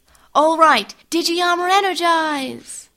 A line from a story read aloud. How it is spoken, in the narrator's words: Maisie yelled